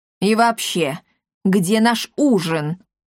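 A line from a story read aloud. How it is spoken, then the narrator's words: Menacing question. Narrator (Russian): грозно спросил аптекарь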